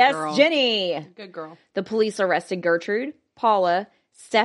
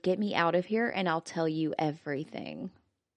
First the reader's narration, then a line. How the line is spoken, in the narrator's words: she whispered